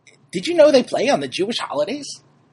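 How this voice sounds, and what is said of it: Stereotypical Jewish mother accent. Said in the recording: “I tried to say that in my most stereotypical Jewish mother accent possible.”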